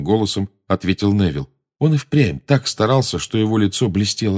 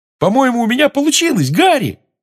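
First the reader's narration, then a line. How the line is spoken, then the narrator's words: Excited yell. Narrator (Russian): завопил Симус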